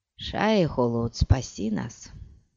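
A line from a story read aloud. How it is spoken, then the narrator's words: Muttered. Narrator (Russian): пробормотал Пол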